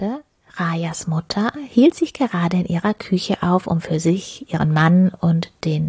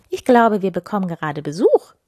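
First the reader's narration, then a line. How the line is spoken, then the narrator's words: Calling into another room. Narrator (German): rief sie in die gute Stube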